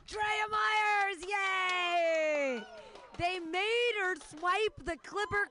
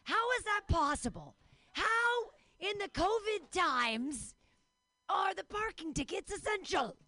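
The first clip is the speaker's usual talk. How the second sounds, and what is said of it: Imitates another person's voice. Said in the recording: “That was me being Cosby. That was my Cosby impression.”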